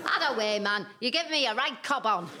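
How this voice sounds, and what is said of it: Northern English accent. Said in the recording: “I don't speak Northern.”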